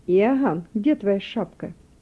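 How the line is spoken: Commanding mother's question. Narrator (Russian): его мать властным голосом спросила

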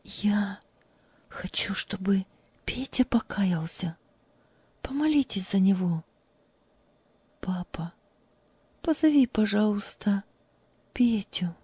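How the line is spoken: Quiet speech. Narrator (Russian): тихо сказала

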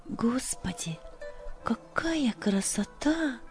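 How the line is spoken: Whispered. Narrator (Russian): прошептала Любочка

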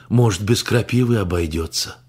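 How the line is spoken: Hopeful sigh. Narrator (Russian): Венсан вздохнул с надеждой

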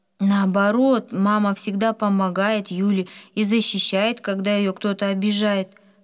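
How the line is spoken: Plain. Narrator (Russian): сказала Валя

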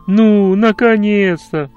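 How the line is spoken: Distant exclamation. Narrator (Russian): воскликнул кто-то из-за деревьев

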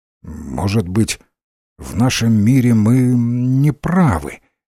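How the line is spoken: Uncertain, worried. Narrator (Russian): неуверенно начал Ренсом, встревоженный тем, что натворил

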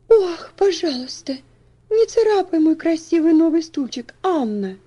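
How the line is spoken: Pleading. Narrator (Russian): взмолилась Элси

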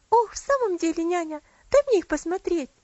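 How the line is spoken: Impatient exclamation. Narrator (Russian): с нетерпением воскликнула Элси

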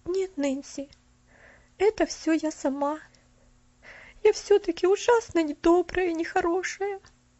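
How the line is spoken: Sobbing. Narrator (Russian): Поллианна всхлипнула

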